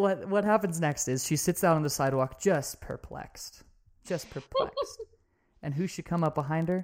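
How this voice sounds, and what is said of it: Usual voice. Nothing is said of it.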